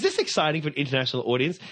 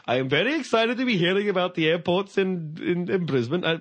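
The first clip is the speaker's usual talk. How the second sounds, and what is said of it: Muddled put-on foreign accent. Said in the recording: “What the hell is that accent? ... Indian now? ... I'm Pakistani or Scottish. I'm not terribly sure. ... I'm bad with accents”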